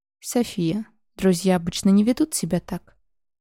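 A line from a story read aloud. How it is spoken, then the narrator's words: Calm. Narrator (Russian): спокойно произнес Дэриан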